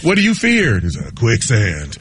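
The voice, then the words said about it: Imitates another person's voice. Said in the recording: “that's my Keanu Reeves impression.”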